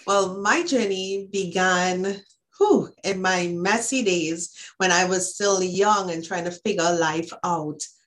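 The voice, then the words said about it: Trinidadian accent. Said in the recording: “this beautiful accent is from Trinidad and Tobago”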